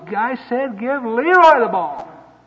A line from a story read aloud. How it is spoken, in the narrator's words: he yelled at the top of his lungs